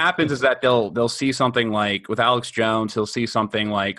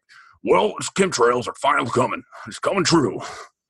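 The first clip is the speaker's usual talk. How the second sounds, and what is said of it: Alex Jones impression. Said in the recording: “That was a remarkably good impression on the fly ... my Alex Jones”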